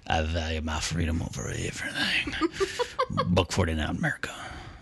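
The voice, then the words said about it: Imitates another person's voice. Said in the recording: “your impression of”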